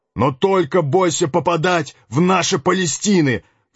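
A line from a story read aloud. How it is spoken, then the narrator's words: Howling collier. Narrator (Russian): взвыл угольщик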